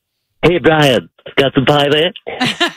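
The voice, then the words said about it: Stewie from Family Guy cartoon voice. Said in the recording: “It's Stewie from Family Guy. ... That's not that good of an impression.”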